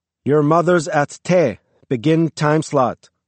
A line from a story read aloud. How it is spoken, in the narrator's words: Crastio yelled out hoarsely to Ivailo